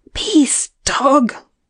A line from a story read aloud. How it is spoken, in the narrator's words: she screamed